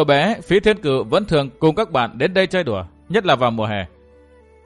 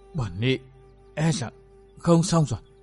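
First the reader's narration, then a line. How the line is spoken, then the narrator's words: Trembling, breathless old nun. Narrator (Vietnamese): Lão ni cô toàn thân run rẩy, hơi thở hào hển nói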